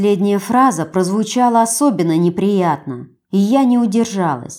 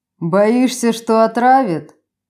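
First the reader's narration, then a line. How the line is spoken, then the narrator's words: Short mocking laugh. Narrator (Russian): хохотнул Кристиан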